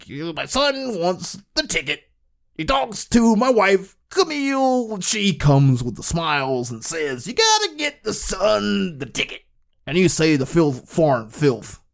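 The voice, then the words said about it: Imitates another person's voice. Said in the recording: “an impersonation of Eddie Murphy's Bill Cosby”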